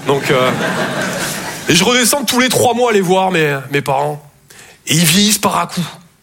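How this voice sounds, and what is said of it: Slight Toulouse accent. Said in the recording (French): “Je viens de Toulouse à la base. Ouais, ça s'entend un peu.”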